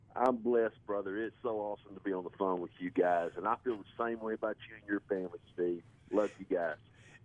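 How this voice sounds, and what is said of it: Thick Southern US accent. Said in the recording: “have you sensed a little accent there ... that is Mississippi ... My southern accent is very thick”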